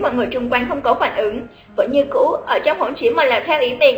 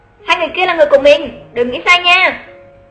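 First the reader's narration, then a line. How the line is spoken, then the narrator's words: Raised voice. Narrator (Vietnamese): Lục Tiểu Hành vừa cao giọng nói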